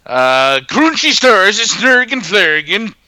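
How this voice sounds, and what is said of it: Exaggerated put-on Swedish accent. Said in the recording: “Something in a racist Swedish accent ... Can you do a Swedish accent?”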